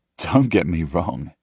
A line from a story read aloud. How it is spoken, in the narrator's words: I laugh